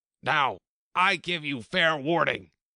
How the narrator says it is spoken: shouted the Queen

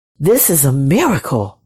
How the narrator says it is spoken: whispered the shepherds

